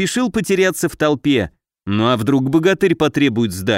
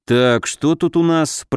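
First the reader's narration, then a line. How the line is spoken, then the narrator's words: Grumbling. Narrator (Russian): проворчал Алёша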